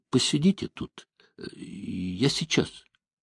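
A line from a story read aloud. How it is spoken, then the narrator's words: Hesitant voice. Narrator (Russian): нерешительным голосом произнес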